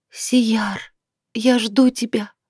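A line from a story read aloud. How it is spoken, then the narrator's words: Sad whisper, young woman. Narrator (Russian): Девушка вздохнула и с грустью прошептала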